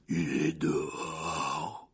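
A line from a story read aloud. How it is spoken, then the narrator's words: Hoarse voice. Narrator (French): répondit Hagrid d'une voix rauque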